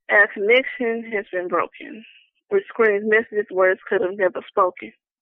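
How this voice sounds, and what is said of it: Speaks with a noticeable accent. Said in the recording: “Excuse my accent”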